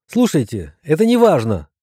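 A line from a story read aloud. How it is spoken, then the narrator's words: Exclamation. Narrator (Russian): воскликнула, наконец, Зая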